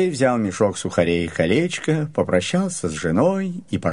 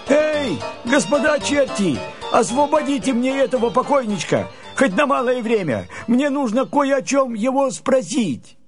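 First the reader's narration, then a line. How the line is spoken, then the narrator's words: Shouted. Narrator (Russian): Андрей закричал чертям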